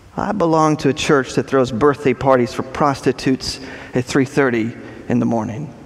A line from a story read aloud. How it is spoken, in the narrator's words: answers quietly